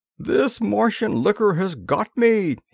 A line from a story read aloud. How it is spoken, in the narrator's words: he exclaimed